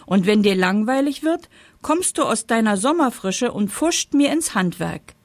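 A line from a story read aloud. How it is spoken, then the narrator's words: Indignant shout. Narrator (German): rief der Herbst empört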